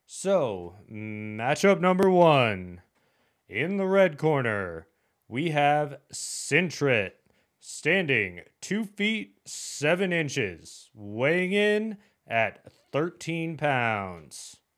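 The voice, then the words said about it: Imitates a fight announcer's voice. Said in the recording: “my best impression of Bruce Buffer... The voice of the UFC”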